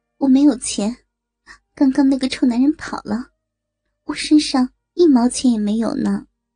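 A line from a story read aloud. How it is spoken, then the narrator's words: Thin soft voice. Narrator (Chinese): 他开口说话了，声音细细软软的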